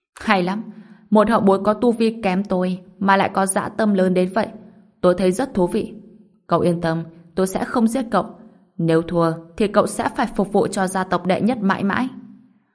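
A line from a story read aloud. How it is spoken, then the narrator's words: Loud laughing reply. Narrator (Vietnamese): Người đàn ông cười lớn đáp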